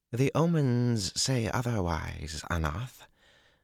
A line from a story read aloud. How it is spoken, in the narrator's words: the girl said calmly, and not at all in anger